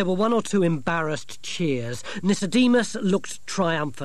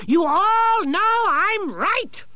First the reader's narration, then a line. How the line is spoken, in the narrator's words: shouted Nicodemus